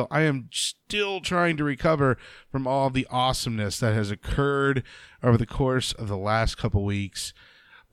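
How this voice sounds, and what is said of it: Slightly crackly, tired voice. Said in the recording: “My voice is just a little crackly still. ... I'm exhausted. I'm tired.”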